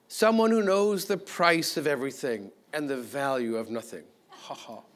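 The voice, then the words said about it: Faux effete accent. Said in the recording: “my faux effete accent is taxing on me”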